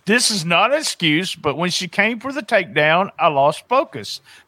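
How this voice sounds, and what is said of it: Dramatic read in Southern accent. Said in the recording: “Dramatic read. ... I can't do that Brazilian, so, but here we go. I'm going to do it with the Southern accent.”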